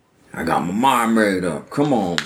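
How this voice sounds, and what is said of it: Imitates another person's voice. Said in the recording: “All right, that was terrible. I'm not going to try to use my whole impression.”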